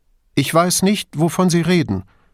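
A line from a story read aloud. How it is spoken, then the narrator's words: Too loud. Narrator (German): sagte Duso zu laut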